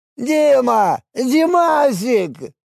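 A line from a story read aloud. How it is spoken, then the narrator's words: Joyful yelling. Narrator (Russian): заорал Дионис радостно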